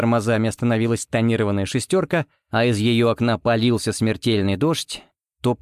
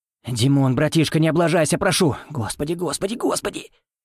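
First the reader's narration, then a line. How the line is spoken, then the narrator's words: Whispering. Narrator (Russian): шептал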